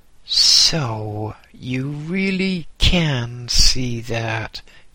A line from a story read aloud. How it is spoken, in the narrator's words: he said